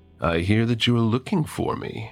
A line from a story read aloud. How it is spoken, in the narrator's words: he says in his smooth as cream voice